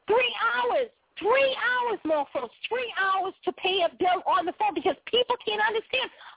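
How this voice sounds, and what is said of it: Heavy regional American accent. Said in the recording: “I know I have a funny accent. ... they can't even understand what I'm saying. That's how heavy my accent is.”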